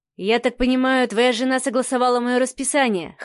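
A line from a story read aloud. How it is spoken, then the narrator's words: Wry snort. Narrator (Russian): хмыкнул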